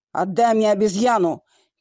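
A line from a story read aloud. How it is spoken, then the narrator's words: Shout. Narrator (Russian): крикнул он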